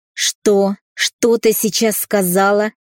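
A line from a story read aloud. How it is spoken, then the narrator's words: Angry growl. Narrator (Russian): прорычал отец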